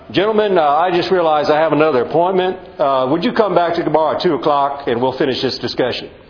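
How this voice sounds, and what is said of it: Texas senator accent. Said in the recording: “I have to do the Texas senator accent.”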